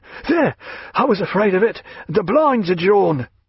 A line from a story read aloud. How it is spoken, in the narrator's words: he said, panting